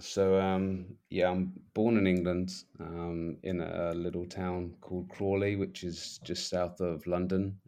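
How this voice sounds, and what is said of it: English accent. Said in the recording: “I'm guessing by the accent, it's not local.”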